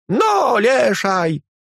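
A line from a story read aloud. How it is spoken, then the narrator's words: Child whimpering. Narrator (Russian): хныкал мальчишка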